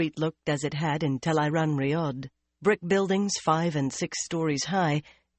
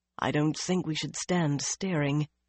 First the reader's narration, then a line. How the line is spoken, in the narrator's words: Birgitta said softly